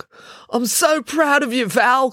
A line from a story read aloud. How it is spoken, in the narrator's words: cried Russ